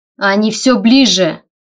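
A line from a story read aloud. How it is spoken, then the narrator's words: Shouted. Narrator (Russian): выкрикнул он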